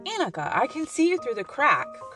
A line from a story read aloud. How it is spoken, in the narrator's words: cried Pippi